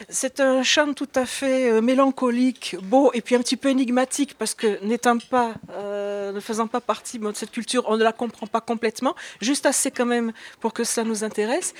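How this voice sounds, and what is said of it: Sing-song Provençal French accent. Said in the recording (French): “l'accent chantant qu'elle est provençale”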